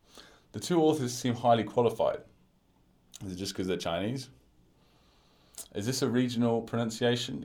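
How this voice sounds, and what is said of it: British English accent. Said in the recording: “my British accent”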